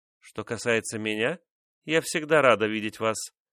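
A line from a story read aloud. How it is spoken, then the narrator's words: Calm remark. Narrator (Russian): спокойно заметила ее соперница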